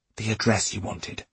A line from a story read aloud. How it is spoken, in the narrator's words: he whispered